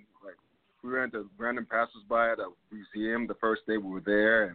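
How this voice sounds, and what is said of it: American accent. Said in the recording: “they picked up on us, on our accent. They knew all right away that we were American.”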